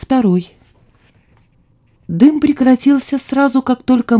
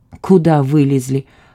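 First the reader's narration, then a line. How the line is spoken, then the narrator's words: Grumbled. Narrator (Russian): проворчал Славомир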